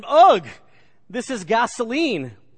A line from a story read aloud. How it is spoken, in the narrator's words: the lawyer exclaimed